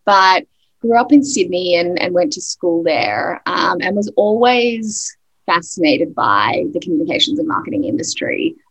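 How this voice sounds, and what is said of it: Australian accent. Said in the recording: “I am Australian originally... still, you know, really holding on to my accent”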